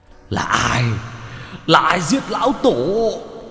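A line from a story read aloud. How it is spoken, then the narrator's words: Hoarse roaring scream. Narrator (Vietnamese): Một tà vật gào lên khàn cả giọng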